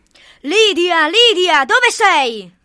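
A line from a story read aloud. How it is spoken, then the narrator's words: Father thundering. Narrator (Italian): tuonava mio padre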